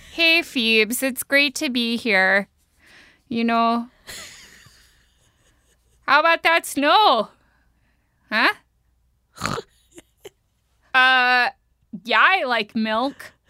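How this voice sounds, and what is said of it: Exaggerated Minnesotan accent. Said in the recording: “a more intense Minnesotan accent ... That was spot on.”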